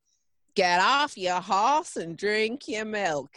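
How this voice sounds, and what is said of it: Poor attempt at American accent. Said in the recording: “I'm not going to do an American accent... Is that American?... That's worse than the Australian one”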